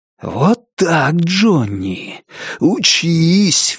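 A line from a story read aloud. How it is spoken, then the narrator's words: Exhaled exclamation. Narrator (Russian): выдохнул Лестер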